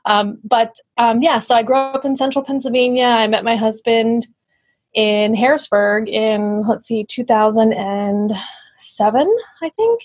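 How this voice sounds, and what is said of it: Central Pennsylvania accent. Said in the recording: “I am originally from central Pennsylvania, which you can probably hear. Everybody here says that I have an accent.”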